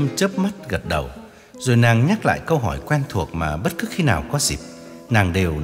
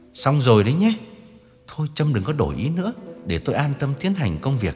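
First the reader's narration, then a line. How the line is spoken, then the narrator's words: Lowered voice. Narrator (Vietnamese): Định đứng dậy từ giã và hạ giọng nhắc lại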